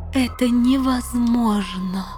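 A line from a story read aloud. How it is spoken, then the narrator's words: Moaning despair. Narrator (Russian): простонала королева Танитриэль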